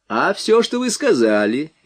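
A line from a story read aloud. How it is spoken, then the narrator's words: Cheerful reply. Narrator (Russian): весело ответил Нунан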